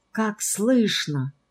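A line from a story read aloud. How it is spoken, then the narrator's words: Whispered. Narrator (Russian): прошептала Марфенька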